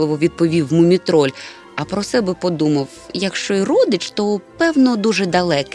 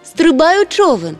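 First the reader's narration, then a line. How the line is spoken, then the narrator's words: Shout. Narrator (Ukrainian): крикнула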